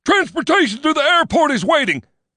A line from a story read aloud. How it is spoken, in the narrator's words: he shouted